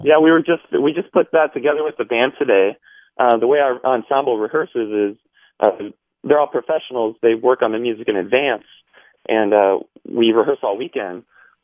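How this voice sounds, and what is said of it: Slightly hoarse, strained voice. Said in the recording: “lost my voice a little bit”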